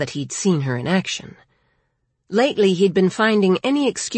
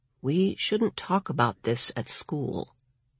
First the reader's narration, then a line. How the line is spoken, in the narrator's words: Lawrence said very quietly